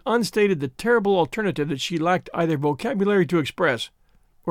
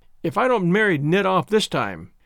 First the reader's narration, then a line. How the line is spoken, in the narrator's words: she said triumphantly